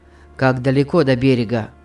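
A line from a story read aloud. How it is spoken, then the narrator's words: Gloomy question. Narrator (Russian): спросил Питер мрачно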